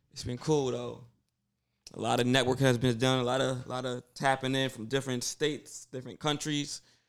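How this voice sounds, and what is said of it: Tired, strained, fading voice. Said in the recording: “I am exhausted, losing my voice.”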